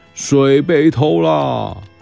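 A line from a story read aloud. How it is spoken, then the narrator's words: King shouting. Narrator (Chinese): 国王又大喊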